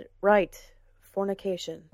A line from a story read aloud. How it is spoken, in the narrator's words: Gawain said, his voice rough and weary